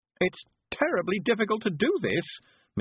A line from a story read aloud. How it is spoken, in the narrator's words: Miss Level moaned